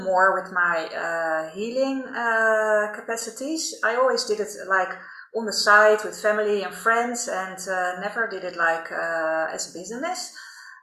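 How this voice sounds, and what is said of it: Dutch accent. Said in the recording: “I'm Dutch, by the way, as you can probably hear by my accent”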